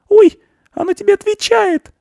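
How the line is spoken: Delighted girl's squeal. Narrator (Russian): взвизгнула от восторга девочка Анечка

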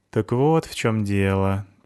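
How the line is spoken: Sad. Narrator (Russian): печально сказал Стасик

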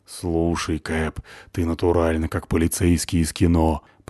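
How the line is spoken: Admiring whisper. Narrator (Russian): прошептала восхищенно Натаха

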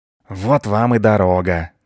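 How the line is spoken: Breathless boar. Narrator (Russian): выдохнул кабан

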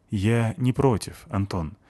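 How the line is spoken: Soft. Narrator (Russian): мягко сказала Нетта

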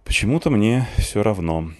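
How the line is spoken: Sighing. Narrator (Russian): вздохнул я

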